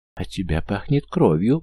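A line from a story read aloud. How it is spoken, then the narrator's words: Sudden frightened mother. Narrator (Russian): вдруг испуганно проговорила мать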